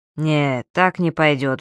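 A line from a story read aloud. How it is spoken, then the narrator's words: Sighing. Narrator (Russian): вздохнул следователь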